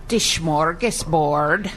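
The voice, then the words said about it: Swedish-accented pronunciation. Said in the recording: “extra credit for the accent.”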